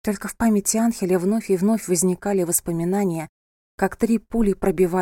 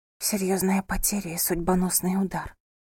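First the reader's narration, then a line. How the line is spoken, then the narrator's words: Whispered. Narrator (Russian): прошептала она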